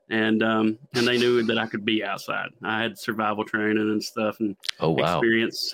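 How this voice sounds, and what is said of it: Thick Southeast Kentucky accent. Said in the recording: “I'm from Southeast Kentucky. ... This accent, it's pretty thick.”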